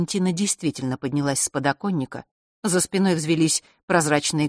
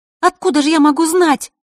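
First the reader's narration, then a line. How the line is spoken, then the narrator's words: Called out after. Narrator (Russian): крикнула ей вдогонку Василиса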